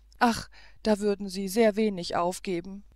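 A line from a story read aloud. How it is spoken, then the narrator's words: Tearful sigh. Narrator (German): seufzte Zoraide mit tränenden Augen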